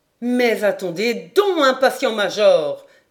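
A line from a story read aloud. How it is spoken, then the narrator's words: Exclaiming. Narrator (French): s'écria Paganel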